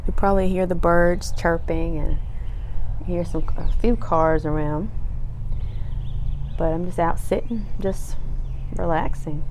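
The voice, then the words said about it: Slightly hoarse voice. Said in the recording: “we stayed up late last night, so my voice is a little hoarse.”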